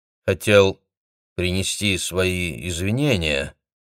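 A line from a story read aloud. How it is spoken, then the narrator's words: Hesitant, suppressed anger. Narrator (Russian): неуверенно начал Автандил, внутри которого все еще кипела злость на то, что он должен присмыкаться перед этим олухом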